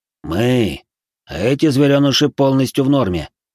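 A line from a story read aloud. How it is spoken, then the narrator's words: Smirking hunter. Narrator (Russian): хмыкнул охотник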